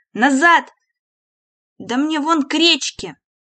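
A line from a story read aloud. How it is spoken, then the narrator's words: Shouted. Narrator (Russian): часовой закричал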